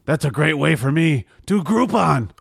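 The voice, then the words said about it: Impression of a cartoonish dog character. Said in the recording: “my impression of Triumph, the Insult Comic Dog, if he sold out”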